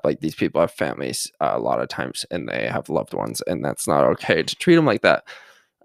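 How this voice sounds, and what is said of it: Creaky vocal fry voice. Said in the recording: “I'm talking so much, my voice is getting getting vocal fry ... You want some ketchup with that vocal fry”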